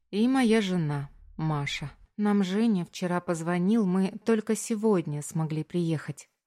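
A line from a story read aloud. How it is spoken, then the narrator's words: Plain. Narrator (Russian): говорит Маша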